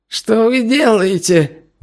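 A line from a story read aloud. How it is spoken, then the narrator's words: Shrill squeal. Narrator (Russian): взвизгнул Ли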